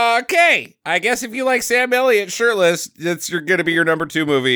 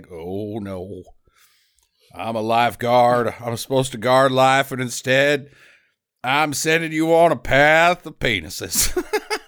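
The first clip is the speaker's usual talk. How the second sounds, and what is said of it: Bad Sam Elliott impression. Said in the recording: “bad Sam Elliott impression.”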